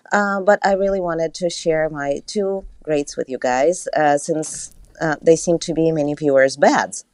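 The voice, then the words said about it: Speaks with a noticeable accent. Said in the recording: “when I get nervous, my accent gets worse”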